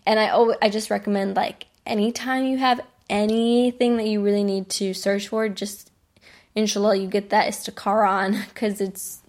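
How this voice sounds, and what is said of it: American accent on Arabic words. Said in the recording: “my Arabic, I have a very American accent ... it's very American ... I say things very American”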